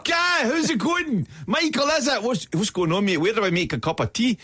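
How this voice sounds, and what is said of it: Put-on Scottish accent. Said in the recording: “we should maybe let you do the whole show in this accent ... we have a lot of Scottish people to interact with ... Keep your own accent, please.”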